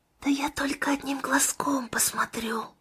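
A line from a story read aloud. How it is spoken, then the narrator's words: Whisper, woman. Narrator (Russian): прошептала Анита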